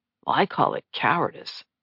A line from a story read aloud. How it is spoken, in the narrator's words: Nate muttered